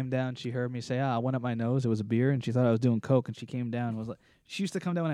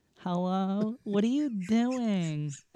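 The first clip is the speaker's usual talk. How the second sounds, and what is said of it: Imitates another person's voice. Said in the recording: “I do my mom, too ... I used to do my mom impersonation”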